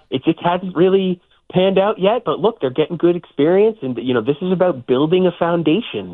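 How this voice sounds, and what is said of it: Impression of Craig Breslow. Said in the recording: “this is me doing a Craig Breslow voice, by the way. I hope it works.”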